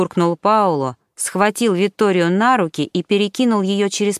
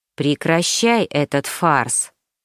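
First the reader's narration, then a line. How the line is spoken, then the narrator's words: Sudden quiet voice. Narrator (Russian): Вдруг тихо проговорил Марко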